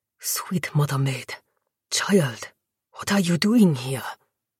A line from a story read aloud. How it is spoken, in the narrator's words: He breathed